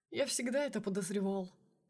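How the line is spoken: Snort. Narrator (Russian): хмыкнул Сергей

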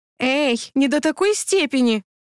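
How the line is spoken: Laughing exclamation. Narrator (Russian): хохотнула я

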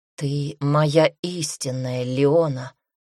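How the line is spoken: Husky whisper. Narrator (Russian): шепчет он с легкой хрипотцой

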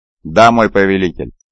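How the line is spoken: Plain. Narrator (Russian): ответил Эхион

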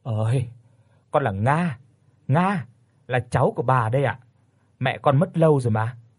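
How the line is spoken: Weary sigh. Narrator (Vietnamese): Tôi chẹt miệng, có một chút mệt mỏi mà thở dài

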